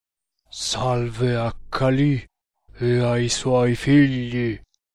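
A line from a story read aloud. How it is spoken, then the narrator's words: Gloomy deep voice. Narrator (Italian): rispose l'indiano con voce cupa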